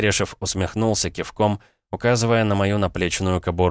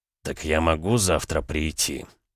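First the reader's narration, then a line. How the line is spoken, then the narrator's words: Through clenched teeth. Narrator (Russian): сквозь зубы процедил Дерешев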